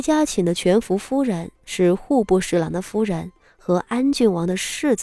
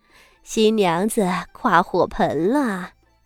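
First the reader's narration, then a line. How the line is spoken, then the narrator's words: Smiling announcement. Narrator (Chinese): 徐家的两位全福夫人…笑着道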